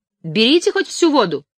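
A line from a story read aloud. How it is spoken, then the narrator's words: Shout. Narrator (Russian): крикнул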